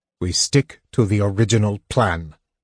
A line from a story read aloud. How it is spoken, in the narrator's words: Tanis said sharply